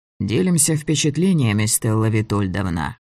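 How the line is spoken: Gloomy and embarrassed. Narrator (Russian): сказал Влас Петрович одновременно мрачно и смущенно

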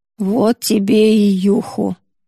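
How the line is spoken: Muttering to herself. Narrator (Russian): бормочет себе под нос Юдора

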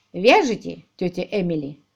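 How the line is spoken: Gloomy inquiry. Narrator (Russian): мрачно осведомился он

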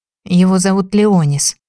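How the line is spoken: Breathy, suppressing a moan. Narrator (Russian): выдохнула, подавляя стон

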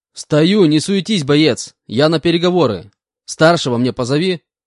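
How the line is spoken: Shouting. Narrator (Russian): выкрикнул я

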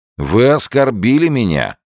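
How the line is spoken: Indignant. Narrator (Russian): возмущенным тоном заявил капитан Трефазан

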